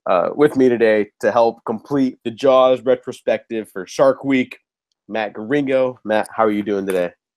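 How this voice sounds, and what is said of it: Slightly nasal, congested voice. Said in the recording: “I'm getting over a really bad cold, so if I sound a little nasally”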